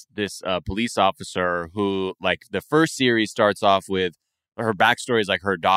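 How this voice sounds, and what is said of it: Usual voice. Nothing is said of it.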